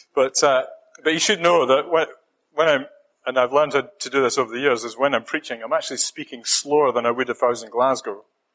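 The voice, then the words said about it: Scottish accent. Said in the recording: “I'm hanging on to my Scottish accent as much as I can”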